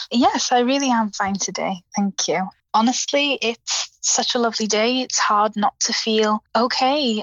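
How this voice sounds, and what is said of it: South Welsh accent. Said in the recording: “I noticed a lovely accent there ... I'm in South Wales.”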